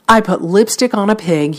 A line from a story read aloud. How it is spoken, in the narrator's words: he said